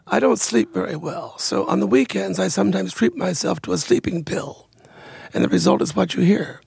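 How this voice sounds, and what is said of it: Raspy, hoarse voice. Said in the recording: “your voice is a little raspy ... hoarseness”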